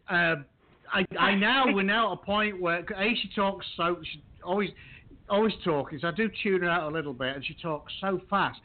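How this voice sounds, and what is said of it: Broad Yorkshire accent. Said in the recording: “I'm pretty much broad Yorkshire.”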